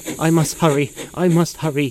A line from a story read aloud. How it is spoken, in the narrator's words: panted